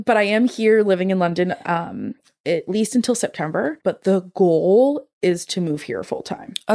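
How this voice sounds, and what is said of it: American accent. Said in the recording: “obviously I'm American. ... If ... you didn't hear that.”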